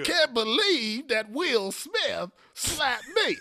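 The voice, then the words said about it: Imitates another person's voice. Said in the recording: “Is that your Chris Rock impression? ... It's not a good one. ... That's the worst impression I've ever heard.”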